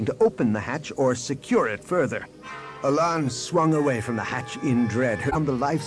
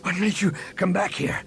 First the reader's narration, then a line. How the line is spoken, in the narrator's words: Han asked between breaths